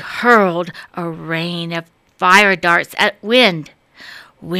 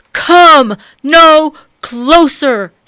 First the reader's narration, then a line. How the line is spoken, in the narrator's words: shouted Sun